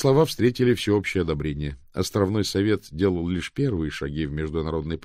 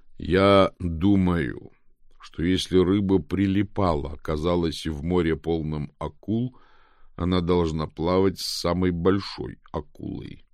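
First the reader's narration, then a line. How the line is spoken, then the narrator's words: Plain. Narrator (Russian): сказал Мило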